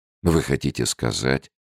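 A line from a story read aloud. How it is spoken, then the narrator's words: Calm question. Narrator (Russian): спокойно спросил Фрэнсис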